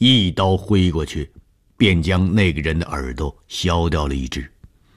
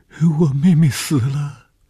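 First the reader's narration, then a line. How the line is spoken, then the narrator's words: Crying. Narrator (Chinese): 见着红玉便哭起来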